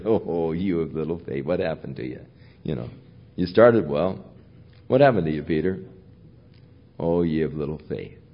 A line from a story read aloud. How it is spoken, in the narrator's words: Jesus, I can hear Jesus chuckle as he said